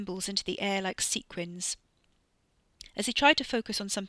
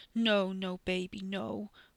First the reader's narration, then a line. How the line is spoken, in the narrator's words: Wes whimpered